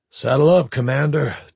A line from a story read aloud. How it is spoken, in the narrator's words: TFNS Dalmatian's captain said grimly